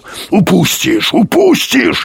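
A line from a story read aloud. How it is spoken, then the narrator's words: Growling. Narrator (Russian): рычал Юрковский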